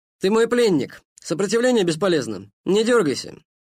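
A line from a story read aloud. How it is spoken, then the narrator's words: Loud speech. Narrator (Russian): громко сказал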